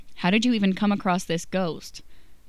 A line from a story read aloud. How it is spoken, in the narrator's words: Dean snorts and asks